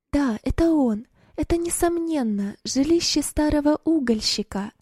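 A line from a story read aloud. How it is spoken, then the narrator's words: Joyful exclamation. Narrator (Russian): Радостно воскликнула Роза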